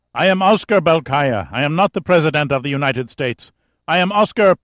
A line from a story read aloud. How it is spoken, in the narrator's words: shouting repeatedly